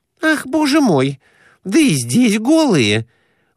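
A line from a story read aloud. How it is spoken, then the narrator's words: Exclaimed. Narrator (Russian): воскликнула Глафира Семеновна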